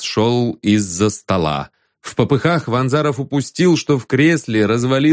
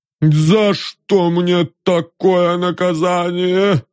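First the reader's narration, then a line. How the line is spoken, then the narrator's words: Groaning. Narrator (Russian): застонал он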